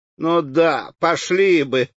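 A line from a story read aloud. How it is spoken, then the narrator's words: Laughing. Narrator (Russian): снова засмеялась Анна Петровна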